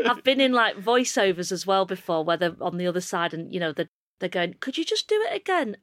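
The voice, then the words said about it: Northern English accent. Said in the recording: “you know that they just mean Northern ... you just mean my accent”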